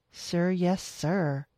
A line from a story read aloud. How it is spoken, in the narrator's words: she said sarcastically